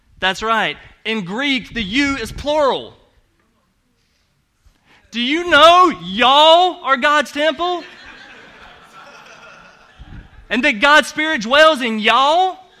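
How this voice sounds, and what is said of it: Southern American accent. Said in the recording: “I have an accent. That's because I'm from the South.”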